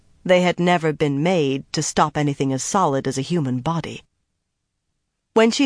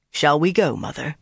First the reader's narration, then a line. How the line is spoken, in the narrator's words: Bryn asked